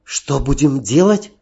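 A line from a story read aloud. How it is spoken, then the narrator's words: Frightened question. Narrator (Russian): испуганно спросила Далила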